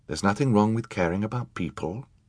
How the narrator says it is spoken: Charles said quietly

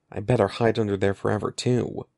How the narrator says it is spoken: Evan told himself bitterly

